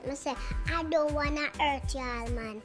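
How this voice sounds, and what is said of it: Put-on American accent. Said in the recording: “me American accent”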